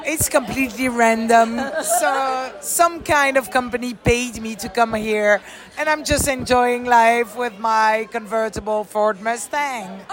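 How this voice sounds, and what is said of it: Foreign accent. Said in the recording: “you have the accent.”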